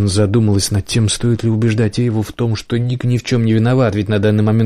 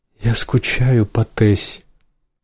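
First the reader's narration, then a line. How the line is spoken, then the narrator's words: Sniffling whisper. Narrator (Russian): прошептала Эйва, шмыгая носом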